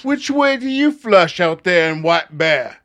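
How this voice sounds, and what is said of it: Vaguely British put-on accent. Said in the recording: “I'm getting my accents mixed up. That was kind of British”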